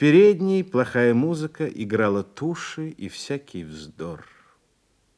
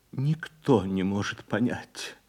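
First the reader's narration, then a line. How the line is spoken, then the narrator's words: Muttering. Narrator (Russian): бормотала она потом в самой дальней комнате, лежа на постели у кормилицы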